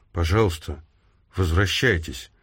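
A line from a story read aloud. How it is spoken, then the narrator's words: Trembling voice. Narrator (Russian): дрогнувшим голосом проговорила Хайди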